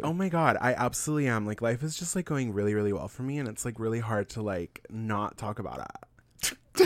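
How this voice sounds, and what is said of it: Little put-on influencer voice. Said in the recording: “That little voice. It's my favorite voice to do.”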